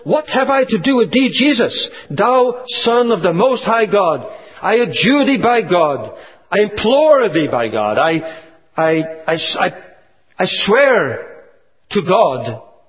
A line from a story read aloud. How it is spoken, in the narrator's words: He fell down, he cried out with a loud voice and said